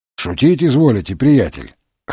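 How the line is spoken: Amused snort. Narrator (Russian): хмыкнул Марлоу

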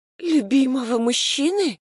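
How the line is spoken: Hoarse whisper. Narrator (Russian): хрипло прошептала я

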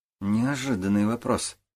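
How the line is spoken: Muttering. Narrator (Russian): пробормотал Сергей

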